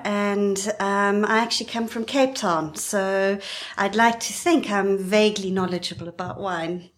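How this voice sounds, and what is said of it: South African accent. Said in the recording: “I detect a South African accent.”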